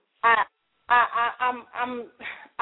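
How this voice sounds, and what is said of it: Stuttering, repeated words. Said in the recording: “I'm stuttering”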